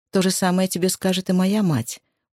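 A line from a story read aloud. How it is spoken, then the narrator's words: Gloomy. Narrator (Russian): уныло промолвила Рия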